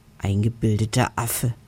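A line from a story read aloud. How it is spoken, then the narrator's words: Hiss. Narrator (German): zischt Harry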